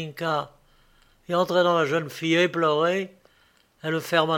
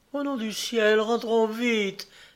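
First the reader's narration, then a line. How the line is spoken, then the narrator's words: Urgent exclamation. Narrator (French): s'écria Anouchka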